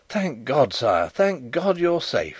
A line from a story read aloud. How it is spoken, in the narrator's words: he cried